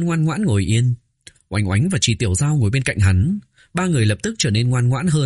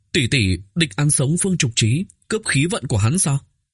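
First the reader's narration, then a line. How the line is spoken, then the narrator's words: Trembling voice. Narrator (Vietnamese): Oánh Oánh run rẩy nói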